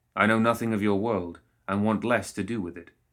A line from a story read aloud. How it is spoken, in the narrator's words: Lohith said